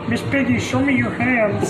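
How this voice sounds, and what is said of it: Kermit the Frog character voice. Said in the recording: “best Kermit impression”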